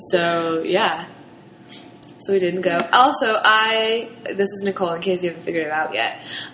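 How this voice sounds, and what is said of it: Scratchy, sick-sounding voice. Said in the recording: “I'm also kind of sick, so I apologize for the scratchy throat sound that I'm rocking right now... It's a sexy sound. It's a sexy voice, but really, I just keep coughing a lot”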